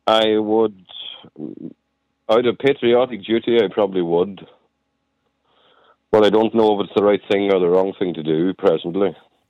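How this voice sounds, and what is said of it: Northern Irish accent. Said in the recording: “I wouldn't know exactly where you're from your accent, but I can tell it's certainly up north anyway.”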